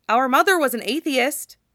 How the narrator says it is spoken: Alphonse blurts

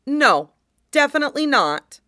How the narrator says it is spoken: Shang Qinghua says firmly

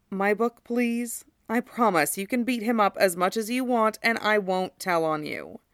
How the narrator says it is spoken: he answers dryly, and when Madara doesn't move, adds

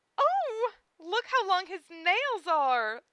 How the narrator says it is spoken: the girls squealed

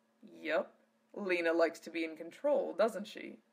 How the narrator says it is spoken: Zelos chuckled

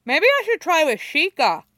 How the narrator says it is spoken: he says, cheerfully, around a mouthful of rice

